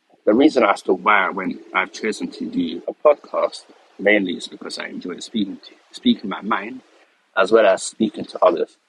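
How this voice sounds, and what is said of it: Croaky voice. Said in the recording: “my voice sounds a bit croaky”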